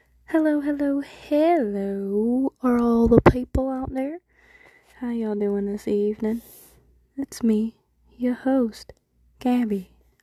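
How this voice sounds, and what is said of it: Put-on country accent. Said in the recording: “with my country accent. Just kidding.”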